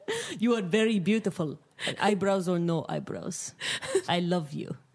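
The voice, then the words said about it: Dracula-like Transylvanian accent. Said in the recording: “I don't know what accent that was. ... That's like Transylvania. ... Making love to Dracula.”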